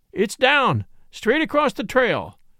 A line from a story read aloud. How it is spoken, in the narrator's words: shouted Fairfax